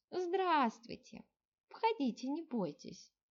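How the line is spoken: Soft. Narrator (Russian): мягко сказала она

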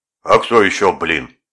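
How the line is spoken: Booming voice. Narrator (Russian): прогремел

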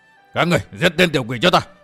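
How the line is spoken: Frightened shout. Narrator (Vietnamese): Lão phó cốc chủ kinh hãi quát

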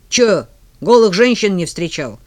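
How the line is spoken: Boy scoffing. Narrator (Russian): фыркнул мальчик

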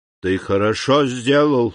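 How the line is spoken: Old man's hollow voice. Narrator (Russian): сказал старик глухим голосом

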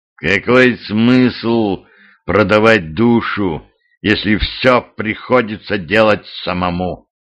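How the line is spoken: Hissing. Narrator (Russian): прошипел епископ

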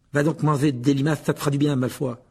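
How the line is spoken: Furious. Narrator (French): dit Ron d'un ton furieux

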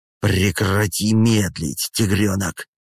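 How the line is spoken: Growling. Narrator (Russian): С рычанием произносит Райан

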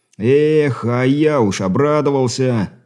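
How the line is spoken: Mock-sorrowful sigh over speaker. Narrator (Russian): нарочито сокрушенно вздохнул поручик, что с легкостью передала механическая аудиосистема

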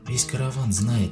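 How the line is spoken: Quiet. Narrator (Russian): тихо заговорила она

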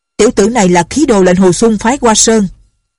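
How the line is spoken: Shout from the east. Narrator (Vietnamese): có người ở phía đông quát

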